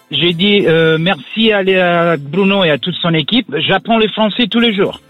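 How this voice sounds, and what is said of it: Italian accent speaking French. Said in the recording (French): “Ton accent est superbe. ... l'accent italien”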